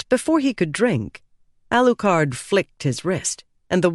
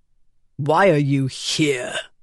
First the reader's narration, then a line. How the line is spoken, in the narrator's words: growled Barriss